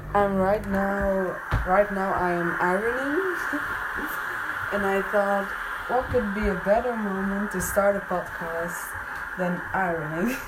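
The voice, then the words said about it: Non-native English accent. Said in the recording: “I know my accent isn't great”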